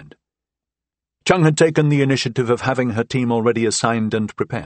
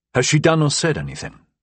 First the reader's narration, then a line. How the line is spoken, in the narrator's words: I asked Kyrgyu